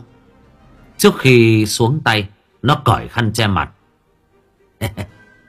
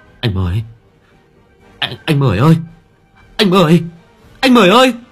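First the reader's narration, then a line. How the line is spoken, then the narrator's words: Frightened stammering. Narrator (Vietnamese): mồ hôi lấm tấm, khuôn mặt tái mét, miệng lắp bắp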